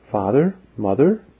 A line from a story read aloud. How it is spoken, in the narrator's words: said Mary earnestly